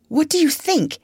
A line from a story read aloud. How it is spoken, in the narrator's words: he cried